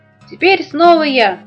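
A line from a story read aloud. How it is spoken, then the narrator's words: Hedgehog shouting. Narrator (Russian): крикнул ежик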